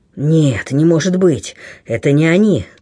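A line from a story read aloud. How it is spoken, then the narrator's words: Through gritted teeth. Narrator (Russian): цедил сквозь зубы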